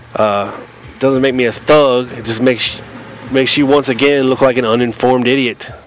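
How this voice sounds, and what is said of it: Southern US accent. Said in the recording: “This is how we talk in the South ... This is how I sound. This is where I grew up. This is my accent”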